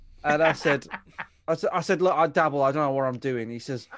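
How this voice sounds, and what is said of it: Usual voice. Nothing is said of it.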